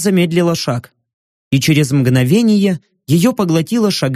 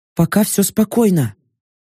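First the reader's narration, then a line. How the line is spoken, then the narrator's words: Whispering. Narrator (Russian): прошептала Йорка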